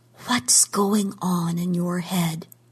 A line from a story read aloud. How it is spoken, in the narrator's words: she whispered